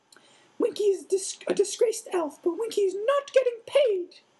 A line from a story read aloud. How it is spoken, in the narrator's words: said, squeaked